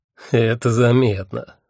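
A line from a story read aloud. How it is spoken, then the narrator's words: Mocking agreement. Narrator (Russian): насмешливо согласился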